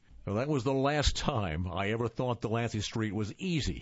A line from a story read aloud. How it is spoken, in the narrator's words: Kevin chuckled